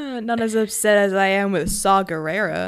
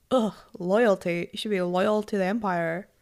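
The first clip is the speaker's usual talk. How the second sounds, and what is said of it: Put-on accent imitating Nolan. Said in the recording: “I don't know what that accent was. ... That's just how, what's his face? Nolan talks in my head.”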